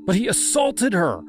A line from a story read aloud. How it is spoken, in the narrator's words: I cried